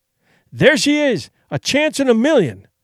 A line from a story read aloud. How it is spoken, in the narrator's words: he cried